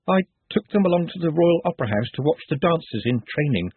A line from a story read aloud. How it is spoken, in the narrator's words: said Nutt nervously